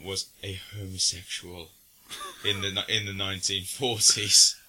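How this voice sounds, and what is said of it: Decent Benedict Cumberbatch impression. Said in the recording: “as Benedict Cumberbatch would say in this film ... That's not a bad impression.”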